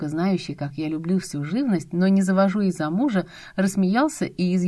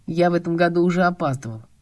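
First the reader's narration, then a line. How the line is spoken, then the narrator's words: Faint smile. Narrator (Russian): бледновато улыбнулся Ромка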